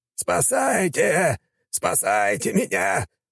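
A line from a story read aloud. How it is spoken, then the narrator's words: Male shout. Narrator (Russian): прокричал он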